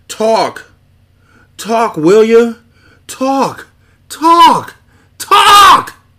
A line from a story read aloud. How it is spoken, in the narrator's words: the birth scream of a legend